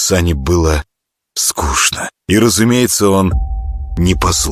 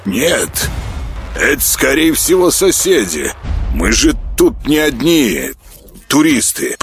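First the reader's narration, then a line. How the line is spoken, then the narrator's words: Distracted grumble. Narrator (Russian): проворчал тот, занятый своим пультом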